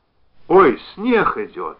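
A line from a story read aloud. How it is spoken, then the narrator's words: Exclamation. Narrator (Russian): воскликнула Зося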